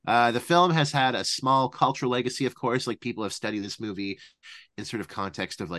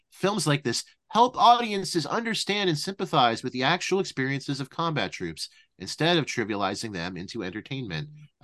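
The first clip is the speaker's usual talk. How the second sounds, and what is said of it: Imitates another person's voice. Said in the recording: “trying to do my Roger voice there, not my Siskel voice”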